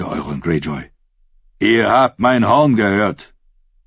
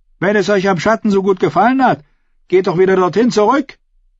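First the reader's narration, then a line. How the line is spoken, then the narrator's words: Young woman calling. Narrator (German): rief Qual, die Jungfrau mit den rosa Wangen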